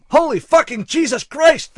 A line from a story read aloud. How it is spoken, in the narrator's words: shouted in unison, as if it were an act they had rehearsed well